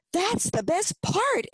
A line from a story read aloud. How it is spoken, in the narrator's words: Emily exclaimed